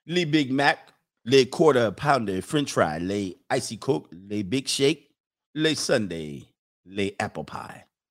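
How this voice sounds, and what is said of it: Put-on French accent. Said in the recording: “Do I have to say it in my French accent over here? ... Is this a good French accent?”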